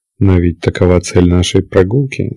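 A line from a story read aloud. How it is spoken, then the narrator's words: Calm objection. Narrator (Russian): спокойно возразила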